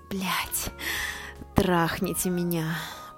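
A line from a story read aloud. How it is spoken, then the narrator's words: Whisper. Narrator (Russian): прошептала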